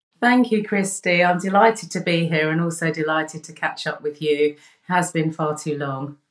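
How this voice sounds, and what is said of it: Speaker with a foreign accent. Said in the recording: “always sounds better because you have an accent.”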